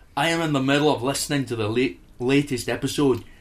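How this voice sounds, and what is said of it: Stereotypical put-on Scottish accent. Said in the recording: “could I have a really stereotypical Scottish accent? Done.”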